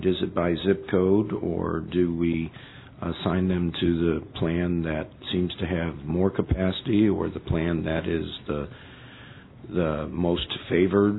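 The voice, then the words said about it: Hoarse voice from laryngitis. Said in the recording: “my laryngitis”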